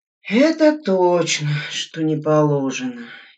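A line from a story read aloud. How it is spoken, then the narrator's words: Commander sighing again. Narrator (Russian): еще раз вздохнул комбат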